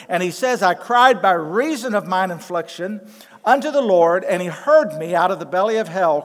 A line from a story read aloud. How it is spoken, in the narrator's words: cried I